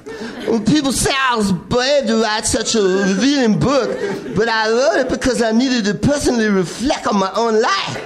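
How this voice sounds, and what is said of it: Imitated voice with New York accent. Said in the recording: “I'm going to read it as Paul Stanley. He has kind of a New York accent.”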